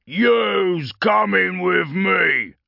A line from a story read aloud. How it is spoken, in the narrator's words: Cogcrusher rasped